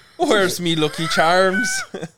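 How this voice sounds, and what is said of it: Put-on Irish or Scottish accent. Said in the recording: “Those are very good Irish accents ... Scottish”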